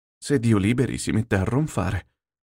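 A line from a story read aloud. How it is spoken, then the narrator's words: Quiet speech. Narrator (Italian): disse piano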